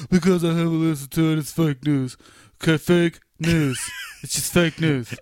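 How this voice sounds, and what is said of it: Imitates another person's voice. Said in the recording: “This is my Donald Trump impression.”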